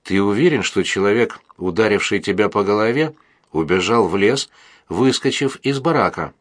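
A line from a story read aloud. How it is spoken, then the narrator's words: Plain. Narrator (Russian): спросил Истомин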